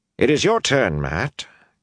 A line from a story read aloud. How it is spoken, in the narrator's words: Carlamine said anxiously